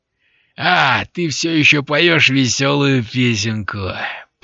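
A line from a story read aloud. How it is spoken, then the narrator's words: Good-natured booming. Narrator (Russian): прогудел Лот, добродушно улыбаясь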